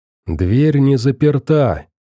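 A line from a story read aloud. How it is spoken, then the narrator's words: Quiet shout. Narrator (Russian): тихо крикнул он им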